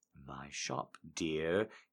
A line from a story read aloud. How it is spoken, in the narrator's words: he murmurs